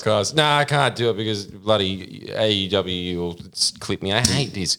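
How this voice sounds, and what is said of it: Usual voice. Nothing is said of it.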